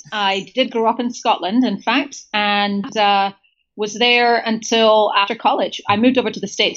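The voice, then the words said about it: British accent. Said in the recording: “you have a very British accent ... good pickup on the accent”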